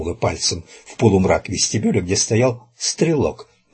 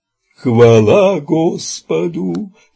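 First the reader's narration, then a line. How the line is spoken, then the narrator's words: Solemn crowd wail. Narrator (Russian): торжественно взвыла паства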